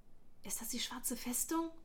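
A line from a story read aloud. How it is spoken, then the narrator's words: Whisper. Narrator (German): flüsterte Darren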